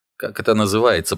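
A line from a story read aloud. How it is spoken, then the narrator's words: Grumbling. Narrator (Russian): проворчал Сато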